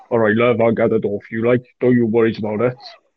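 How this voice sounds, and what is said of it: Thick, deep put-on Welsh accent. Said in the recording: “the thickest, like, deepest Welsh accent ever”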